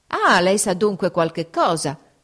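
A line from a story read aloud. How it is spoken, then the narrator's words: Archbishop exclaiming. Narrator (Italian): esclamò l'arcivescovo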